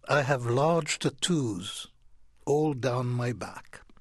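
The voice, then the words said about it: Upper-class British accent. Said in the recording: “there is an upper-class British voice that says”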